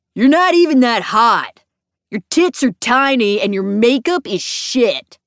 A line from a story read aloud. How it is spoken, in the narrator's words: he yelled